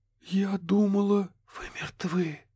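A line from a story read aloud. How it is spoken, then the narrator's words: Barely audible weak rustle. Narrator (Russian): Едва слышно прошелестело Кэти, бессильно опираясь о косяк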